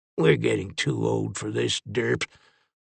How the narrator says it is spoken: Lincoln grumbled

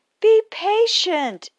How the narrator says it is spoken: exclaimed Rose Red

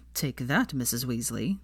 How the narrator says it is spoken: muttered, smirking

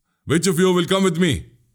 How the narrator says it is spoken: he asked in a firm, loud tone

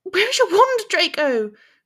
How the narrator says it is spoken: she asked frantically

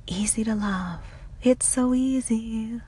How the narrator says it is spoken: the woman belts out

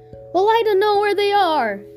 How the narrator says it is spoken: Jenny cried

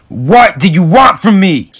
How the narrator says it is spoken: He yells out in anger

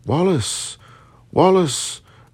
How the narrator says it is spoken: cried the stentorian lungs of Kirkpatrick

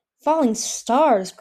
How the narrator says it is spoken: Crow said in an awestruck voice

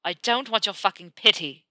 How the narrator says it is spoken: snaps

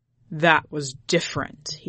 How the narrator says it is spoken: he snarled

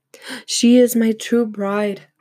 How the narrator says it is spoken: He cried out

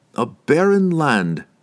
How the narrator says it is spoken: replied Dordemont grimly

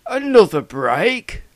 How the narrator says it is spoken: blurted Frank, getting even more flustered

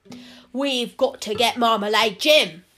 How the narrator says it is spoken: roared

